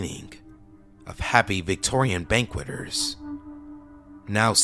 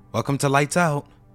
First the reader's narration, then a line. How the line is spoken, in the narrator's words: a suave female voice exclaimed